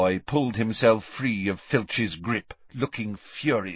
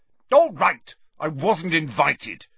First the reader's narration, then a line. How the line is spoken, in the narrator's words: he said angrily